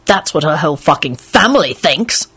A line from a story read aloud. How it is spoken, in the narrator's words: Lupin snarled